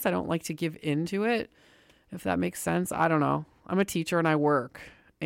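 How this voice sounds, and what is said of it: Hoarse, congested voice with a cold. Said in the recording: “I have like a sore throat, harsh sore throat, and I'm getting a cold. You can probably tell. Not getting a cold, I have a cold.”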